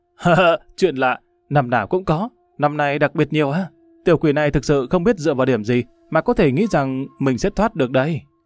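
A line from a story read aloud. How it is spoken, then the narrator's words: Loud laughing voice. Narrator (Vietnamese): Lâm Văn Vinh ngửa mặt lên trời cười to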